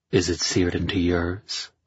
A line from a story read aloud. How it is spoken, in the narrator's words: I murmured, pleased by the thought